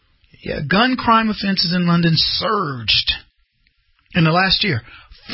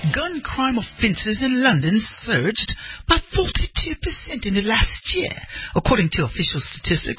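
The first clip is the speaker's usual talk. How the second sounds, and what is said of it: Put-on British accent. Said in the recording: “different accents, right? Yeah, I'm mixing up my British accents.”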